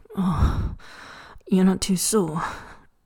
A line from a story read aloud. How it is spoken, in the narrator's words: Lancy Chen groans